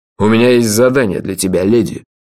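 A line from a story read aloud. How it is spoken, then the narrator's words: Formal tone. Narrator (Russian): официальным тоном обратился он к Меломорье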